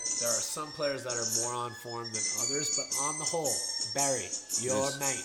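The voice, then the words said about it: Put-on Australian accent. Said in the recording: “I don't know why I'm going into an Australian accent”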